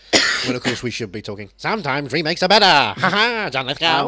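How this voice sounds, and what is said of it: Usual voice. Nothing is said of it.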